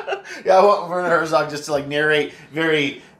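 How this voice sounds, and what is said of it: Usual voice. Nothing is said of it.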